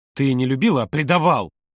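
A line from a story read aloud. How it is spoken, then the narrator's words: Angry bark. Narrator (Russian): Не сдержавшись, рявкнул Володя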